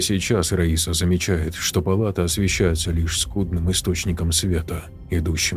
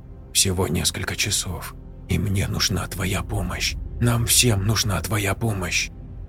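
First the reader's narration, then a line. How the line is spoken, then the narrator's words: Quiet voice. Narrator (Russian): Каролина говорит тихим голосом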